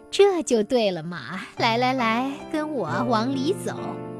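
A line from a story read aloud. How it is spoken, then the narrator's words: Laughing. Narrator (Chinese): 女郎笑着说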